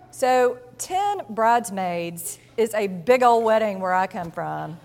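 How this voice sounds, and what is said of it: Put-on Southern US accent. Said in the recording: “I must summon my best southern accent.”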